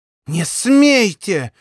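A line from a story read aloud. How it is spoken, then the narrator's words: Hissed. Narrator (Russian): буквально зашипела она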